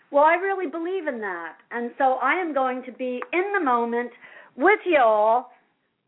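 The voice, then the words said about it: Light Southern drawl. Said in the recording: “that's my little southern drawl coming out from my country music”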